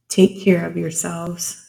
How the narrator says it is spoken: she said brokenly

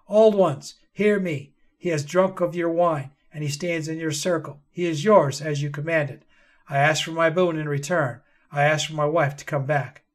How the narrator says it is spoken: his father stood and called out

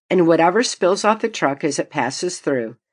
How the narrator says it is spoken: he laughed

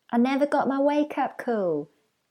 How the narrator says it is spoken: Elrann yelled back

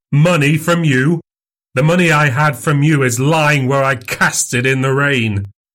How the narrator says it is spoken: cried Fettes

